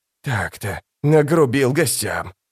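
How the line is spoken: Uncertain smiling mutter. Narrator (Russian): пробормотал с неуверенной улыбкой

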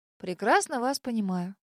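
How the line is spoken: Muttering. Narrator (Russian): пробормотала я

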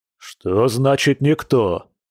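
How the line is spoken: Man's growl. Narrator (Russian): зарычал мужчина

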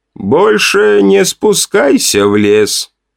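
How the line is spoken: Dull, muffled voice. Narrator (Russian): глухо произнес он

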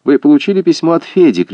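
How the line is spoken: Shouted. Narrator (Russian): крикнула она

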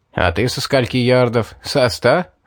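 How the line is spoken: Short laugh. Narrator (Russian): хохотнул он

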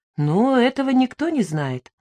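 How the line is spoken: Calm reply. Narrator (Russian): ответил Дердекин спокойно

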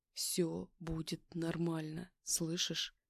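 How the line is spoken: Quiet soothing murmur in ear. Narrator (Russian): Тихо произнес мне на ухо, голос был совсем другим, мягким и успокаивающим

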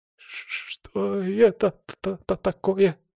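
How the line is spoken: Trembling babble. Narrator (Russian): дрожащим голосом пролепетал видевой

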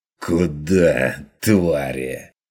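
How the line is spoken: Fierce hiss. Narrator (Russian): Ожесточенно прошипел Ван Ален

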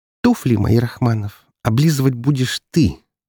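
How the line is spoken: Spiteful. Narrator (Russian): злобно произнесла Лазарева

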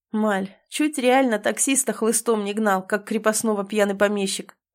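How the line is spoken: Mocking. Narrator (Russian): насмешливо выдает Караев

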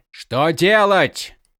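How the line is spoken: Exclaiming. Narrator (Russian): воскликнул Малфурион

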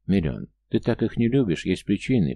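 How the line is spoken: Carefully neutral question. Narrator (Russian): поинтересовался я как можно более нейтральным голосом

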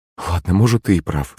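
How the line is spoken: Sighing. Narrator (Russian): вздохнул маман

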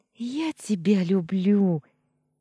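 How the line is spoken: Exclaimed. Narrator (Russian): воскликнула Анита

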